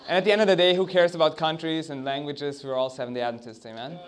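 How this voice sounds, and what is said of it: Austrian accent. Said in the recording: “Don't be distracted by my accent. I'm from Austria. I try to hide that”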